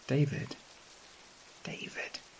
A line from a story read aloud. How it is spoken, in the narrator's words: whispering from the depths of the sack